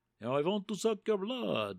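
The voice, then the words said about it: Bela Lugosi Dracula voice impression. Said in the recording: “do a Dracula impersonation ... they're going to use Bela Lugosi's voice”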